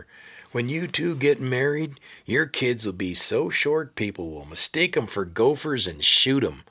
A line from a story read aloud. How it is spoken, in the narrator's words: He hollering over his shoulder